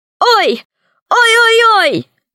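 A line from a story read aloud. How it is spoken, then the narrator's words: Pained crying out. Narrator (Russian): закричала в ответ Кусандра, прыгая на одной ноге и схватившись руками за другой ботинок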